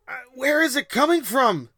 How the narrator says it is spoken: Faust shouted over the screams

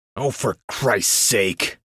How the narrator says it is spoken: Vel grunted

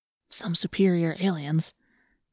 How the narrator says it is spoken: Marco whispered

